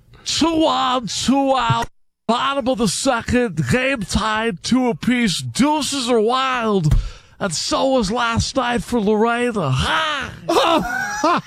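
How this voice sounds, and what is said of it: Imitates a baseball announcer's voice. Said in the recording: “Do the Harry Carey real quick ... Let's do the impersonation”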